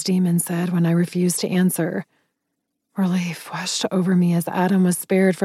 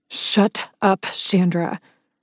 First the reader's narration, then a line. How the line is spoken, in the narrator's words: growled a warning, making my voice sharp